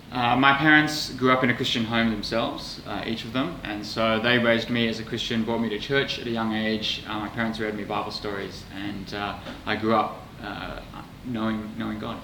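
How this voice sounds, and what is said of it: Australian accent. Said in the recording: “you've lived most of your life in Australia ... as you can probably hear from my accent ... I was picking up that wasn't an English accent”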